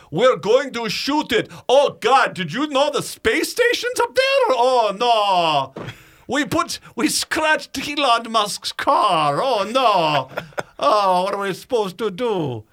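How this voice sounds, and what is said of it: Bad put-on Russian accent. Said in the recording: “I thought my Russian accent was bad ... Or the Count from Sesame Street, whatever that was.”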